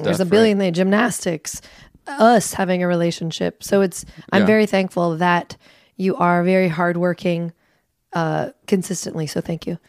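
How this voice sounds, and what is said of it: Hoarse, weak, nearly lost voice. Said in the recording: “I'm sorry that you feel sick ... My voice is just gone.”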